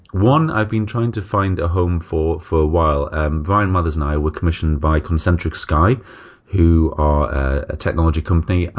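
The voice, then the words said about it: Northern English accent. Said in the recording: “my dodgy northern accent”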